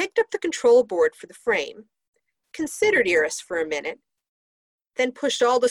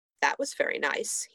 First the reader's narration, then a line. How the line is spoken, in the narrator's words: he murmured